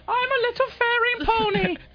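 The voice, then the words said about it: Silly put-on Mrs. Doubtfire-like voice. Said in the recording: “That sounded more like Mrs. Doubtfire. ... You do sound like Mrs. Doubtfire. ... you sound like Mrs. Featherbottom. ... Lola from the Charlie and Lola cartoon. ... you sound like Tobias being Mrs. Featherbottom”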